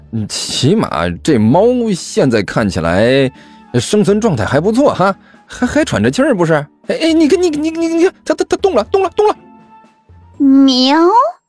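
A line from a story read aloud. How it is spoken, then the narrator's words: Nervous forced laugh. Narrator (Chinese): 这干球干笑着说道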